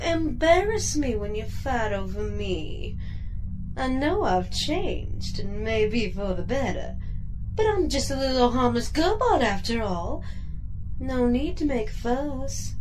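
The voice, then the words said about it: Sultry Southern belle accent. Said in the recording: “You like my accent this week? I'm a regular Southern belle. ... Your voice is sultry enough to melt the rust off a radiator.”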